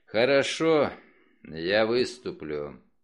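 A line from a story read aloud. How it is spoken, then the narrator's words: Spoken on deep exhale. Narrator (Russian): глубоко вздохнул и потом на выдохе произнес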